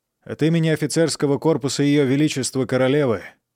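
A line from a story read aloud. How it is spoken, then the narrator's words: Agitated voice. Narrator (Russian): взволнованным голосом произнес Патрик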